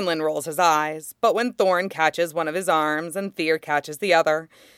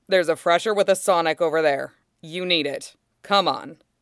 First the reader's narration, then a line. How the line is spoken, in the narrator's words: It makes Fox want to snort, but he contains the urge and says